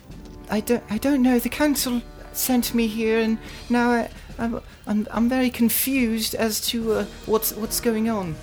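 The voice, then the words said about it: Childlike, girly boy character voice. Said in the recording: “His voice is a bit ... girly. ... it's a bit more childlike than you would assume a 12-year-old boy should have.”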